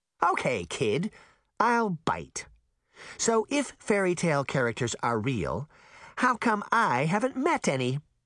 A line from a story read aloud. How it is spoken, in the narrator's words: the caseworker said with a cackle